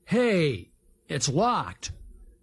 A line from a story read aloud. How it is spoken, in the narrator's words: Big Jim exclaimed